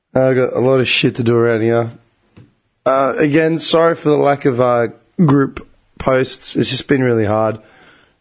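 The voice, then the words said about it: Strained, fading voice. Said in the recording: “my voice is really starting to go.”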